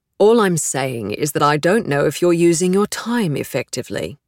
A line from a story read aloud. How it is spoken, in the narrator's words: Diana says finally